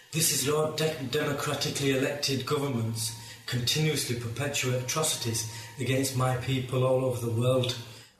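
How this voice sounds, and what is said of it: Thick Yorkshire accent. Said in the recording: “this is in a thick Yorkshire accent.”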